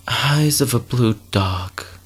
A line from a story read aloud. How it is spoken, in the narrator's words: she sighed, remembered, with a cigarette drooping over her chin